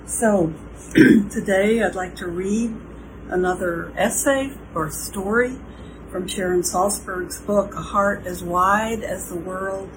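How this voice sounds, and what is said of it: Slightly hoarse, froggy voice. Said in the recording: “my voice is a little froggy”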